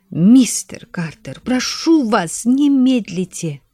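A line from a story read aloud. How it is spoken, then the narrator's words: Whisper. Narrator (Russian): прошептала леди Карнарвон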